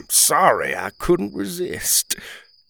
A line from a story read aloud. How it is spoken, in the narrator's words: chuckled